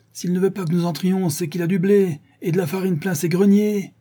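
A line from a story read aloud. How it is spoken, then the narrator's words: Crowd shouting angrily. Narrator (French): criait-on avec l'implacable et brutale logique des masses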